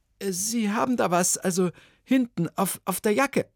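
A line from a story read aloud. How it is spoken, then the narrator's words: Stammered. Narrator (German): stammelte Ilona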